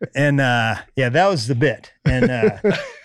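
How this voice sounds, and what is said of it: Usual voice. Nothing is said of it.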